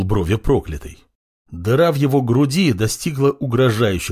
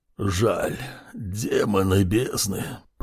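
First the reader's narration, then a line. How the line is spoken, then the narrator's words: Wheezing, dying mage. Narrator (Russian): прохрипел разваливающийся на части маг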